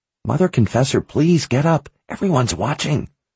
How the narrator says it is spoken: At last, Captain Ryan whispered down to her

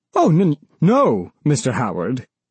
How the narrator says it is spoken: stammered the store manager

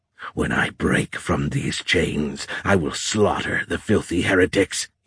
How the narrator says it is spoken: he said, snarling

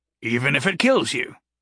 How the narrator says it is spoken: Gary said cheerfully

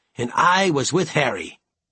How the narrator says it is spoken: he exclaimed

